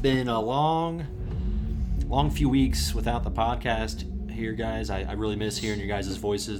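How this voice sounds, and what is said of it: Cheerful, upbeat voice. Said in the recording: “my voice is, is, is a lot cheerful, more more cheerful than usual”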